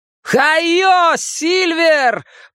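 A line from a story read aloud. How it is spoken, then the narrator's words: Shout. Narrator (Russian): прокричал Билл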